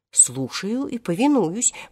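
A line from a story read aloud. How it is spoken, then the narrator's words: Repeated. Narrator (Russian): повторил Хоттабыч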